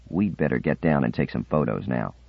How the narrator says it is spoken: said quietly

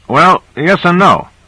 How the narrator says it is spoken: said Owens

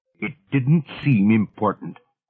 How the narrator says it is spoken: said Silver Cloud, irritably

